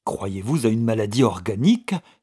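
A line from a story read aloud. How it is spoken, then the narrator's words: Unusually lively exclamation. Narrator (French): s'écria-t-il avec une vivacité qui ne lui était pas habituelle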